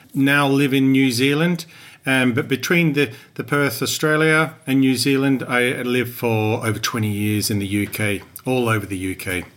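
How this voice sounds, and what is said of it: English-sounding accent, not Australian. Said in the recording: “I'm originally from Perth, Western Australia, although I don't have an Australian accent ... That's where you're getting your accent ... I picked it up from that time. And also both my parents were English.”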